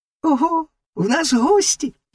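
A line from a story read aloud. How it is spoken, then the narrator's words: Exclamation. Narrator (Ukrainian): вигукнула жабка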